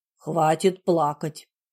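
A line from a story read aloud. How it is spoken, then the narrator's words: Stern command. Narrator (Russian): строго велел я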